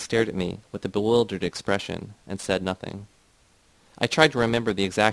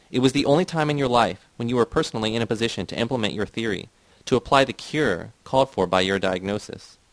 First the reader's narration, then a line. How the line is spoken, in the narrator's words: shouted